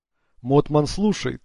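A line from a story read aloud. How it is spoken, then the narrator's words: Pakistani accent. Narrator (Russian): сказал голос с пакистанским акцентом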